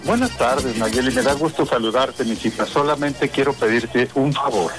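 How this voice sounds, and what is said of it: Smooth, velvety announcer-like voice. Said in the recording (Spanish): “tiene voz de locutor, de esos locutores, de voz de terciopelo ... Muy elegante”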